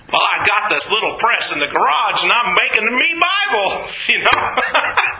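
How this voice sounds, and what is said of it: Put-on Arkansas accent. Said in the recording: “that was an Arkansas accent, not a Gutenberg accent”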